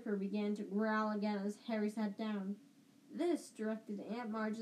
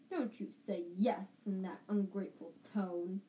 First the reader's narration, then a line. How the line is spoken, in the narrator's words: Aunt Marge growled